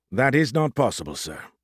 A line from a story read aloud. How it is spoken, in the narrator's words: Smythe said gently